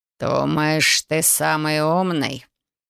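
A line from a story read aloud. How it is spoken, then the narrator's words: Menacing growl. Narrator (Russian): Угрожающе прорычал герцог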